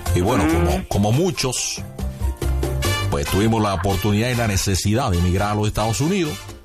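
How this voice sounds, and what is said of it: Strong Cuban Spanish accent. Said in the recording (Spanish): “usted tiene muy marcado su acento. ... Así suena muy cubano.”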